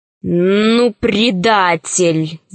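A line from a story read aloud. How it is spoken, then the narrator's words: Growled. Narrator (Russian): зарычал Семенов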